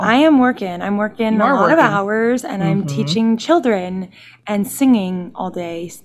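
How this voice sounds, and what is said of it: Hoarse, deepened, fading voice. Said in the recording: “I feel like I sound like a man again... I'm just losing my voice... my voice is just gone”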